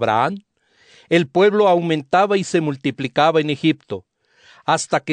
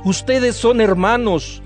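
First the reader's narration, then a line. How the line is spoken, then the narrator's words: Plain. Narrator (Spanish): les dijo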